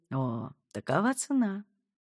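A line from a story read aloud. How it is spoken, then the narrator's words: Woman softly interrupting. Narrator (Russian): Мягко перебила женщина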